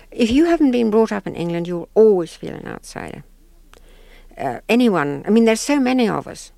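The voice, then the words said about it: Rhodesian accent. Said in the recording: “because of my accent. ... Rhodesian accent. ... You can hear it now”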